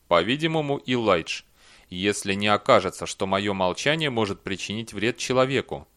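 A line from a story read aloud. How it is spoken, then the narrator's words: Gloomy. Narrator (Russian): Белли сказал мрачно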